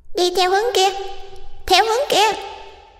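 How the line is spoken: Shrill ghosts in unison. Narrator (Vietnamese): Lũ ma trời trên tường lại rít lên the thé, rồi đồng thanh nói

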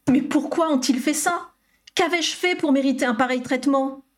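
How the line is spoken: Distressed young man exclaiming. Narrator (French): s'écria le jeune homme, dont le visage reflétait désormais le désarroi

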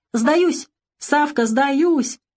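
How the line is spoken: Shouting. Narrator (Russian): кричал он

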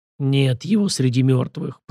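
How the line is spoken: Eerie echo of many voices. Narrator (Russian): произнесла она незнакомым голосом, которым звучало эхо сотни чужих голосов

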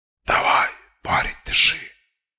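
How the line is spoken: Hoarse voice. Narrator (Russian): хриплый голос

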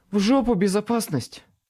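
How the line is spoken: Snapped. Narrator (Russian): Огрызнулась Мёрфи

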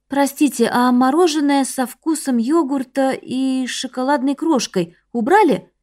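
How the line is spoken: Uncertain question. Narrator (Russian): неуверенно спросила Чонмин, изо всех сил пытаясь вспомнить его длинное название

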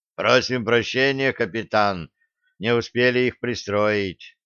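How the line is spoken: Sigh. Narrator (Russian): вздохнул Греф

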